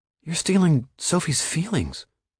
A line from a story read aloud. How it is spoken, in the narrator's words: Josh whispered, horrified